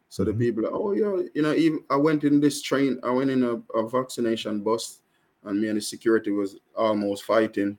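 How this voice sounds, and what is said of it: Strong Jamaican accent. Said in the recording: “I'm Jamaican and I have a strong Jamaican accent”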